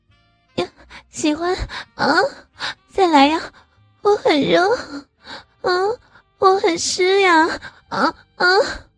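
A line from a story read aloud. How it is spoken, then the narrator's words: Panting question. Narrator (Chinese): 阿斌喘着气问道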